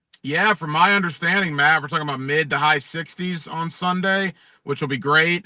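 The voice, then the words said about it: Southern accent, radio voice. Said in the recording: “he's got that really cool Southern accent, but cool radio voice too”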